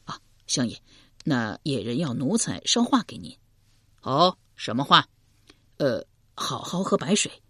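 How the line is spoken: Low voice. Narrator (Chinese): 低声说道

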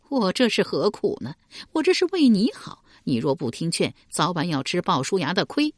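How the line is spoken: Wry bitter smile. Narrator (Chinese): 树雕苦笑道

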